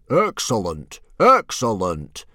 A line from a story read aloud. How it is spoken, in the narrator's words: Stoic the Vast boomed